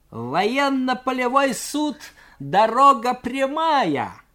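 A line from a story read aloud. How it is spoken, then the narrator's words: Cadet shouting mockingly. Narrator (Russian): с усмешкой крикнул юнкер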